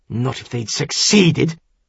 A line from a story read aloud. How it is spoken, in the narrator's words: Narman growled